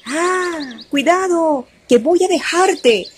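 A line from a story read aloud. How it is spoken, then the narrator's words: Family shouting a warning. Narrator (Spanish): sus familiares le gritaban al venado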